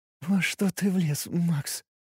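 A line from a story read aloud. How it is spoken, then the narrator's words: Trembling voice, asking. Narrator (Russian): Подрагивающим голосом спросила Кристи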